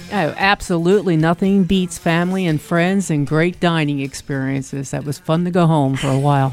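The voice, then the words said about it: South Jersey accent. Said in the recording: “It kicked in back in my South Jersey accent. ... You can hear it.”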